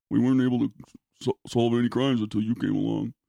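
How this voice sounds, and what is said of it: Deep-voiced impression of a character. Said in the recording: “That's his voice. He's got a deep voice.”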